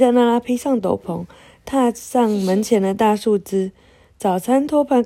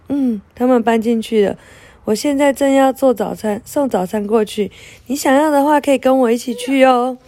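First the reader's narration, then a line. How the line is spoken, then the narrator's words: Smiling. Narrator (Chinese): 佩特纳拉笑着说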